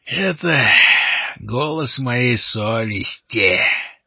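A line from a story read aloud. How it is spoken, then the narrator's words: Growl. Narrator (Russian): прорычал Лот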